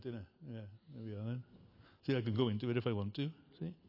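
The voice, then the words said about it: Put-on regional home accent. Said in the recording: “I love his accent. It just reminds me of home. I'm just home when I hear the accent”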